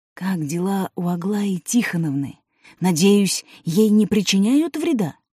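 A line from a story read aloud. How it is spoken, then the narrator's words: Whispered question. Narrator (Russian): Георгий Георгиевич шепотом спросил Каина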